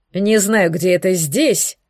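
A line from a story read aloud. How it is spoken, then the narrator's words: Growl. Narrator (Russian): прорычал он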